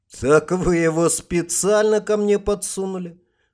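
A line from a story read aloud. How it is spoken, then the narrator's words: Laughing. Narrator (Russian): Гарт рассмеялся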